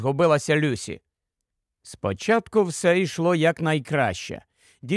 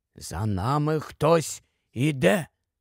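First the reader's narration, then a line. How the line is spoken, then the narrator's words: Barely audible whisper. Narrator (Ukrainian): Ледь чутно прошепотів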